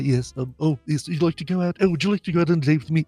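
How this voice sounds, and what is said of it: Bumbling imitation of another person's voice. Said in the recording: “A little tired of the old Hugh Grant ... that whole bumbling.”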